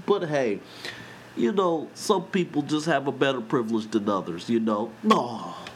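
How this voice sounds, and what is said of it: Imitates another person's voice. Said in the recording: “my terrible impression of Bill Cosby”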